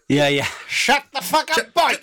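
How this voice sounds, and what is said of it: Loud shouted Swansea Welsh accent. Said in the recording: “in the loudest Swansea accent”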